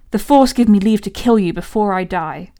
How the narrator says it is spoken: she snarled

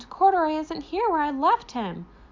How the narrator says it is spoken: she exclaimed

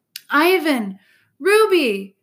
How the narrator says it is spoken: Snickers calls in a delighted voice

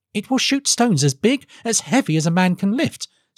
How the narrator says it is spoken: said Felix eagerly

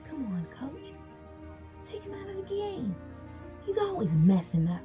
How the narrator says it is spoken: Bobby, the team co-captain, and Showoff whisper

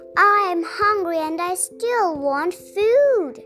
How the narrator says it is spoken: He groaned

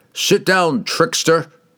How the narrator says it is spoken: Kemp taunted

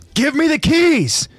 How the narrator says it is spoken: Levi screams out to Historia

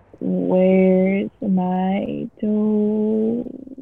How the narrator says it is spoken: It groaned

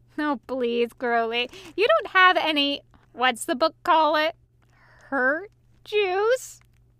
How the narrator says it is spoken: wiping tears from his eyes as he continued to laugh

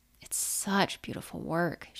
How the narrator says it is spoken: she said with a sigh

